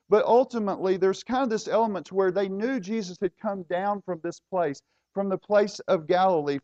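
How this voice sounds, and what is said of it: Southern rural American accent. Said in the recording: “my accent betrays me ... I guess I probably am a redneck.”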